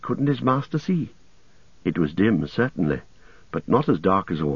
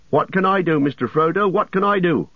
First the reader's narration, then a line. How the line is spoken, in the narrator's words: shouted Sam, leaning out dangerously far